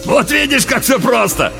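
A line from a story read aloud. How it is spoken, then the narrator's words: Laughing loudly again. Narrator (Russian): вновь захохотал Уильямс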